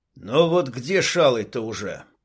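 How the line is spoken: Young man's grumble. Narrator (Russian): пробурчал парень

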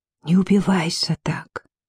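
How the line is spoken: Whispering cherry tree. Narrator (Russian): шепнула черешня

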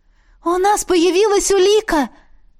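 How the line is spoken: Joyful disbelieving exclamation. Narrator (Russian): воскликнула, не веря такому счастью

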